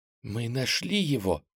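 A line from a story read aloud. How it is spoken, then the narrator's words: Whisper. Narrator (Russian): также шепотом произнесла Аленка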